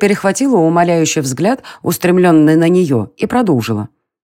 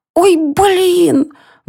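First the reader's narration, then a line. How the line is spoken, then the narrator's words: Shrill squeal. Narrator (Russian): взвизгнула Варя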